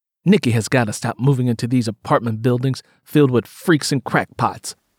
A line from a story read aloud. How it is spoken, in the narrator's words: muttered